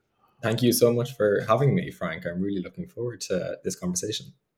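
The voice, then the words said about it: Irish accent. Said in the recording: “I love your Irish brogue.”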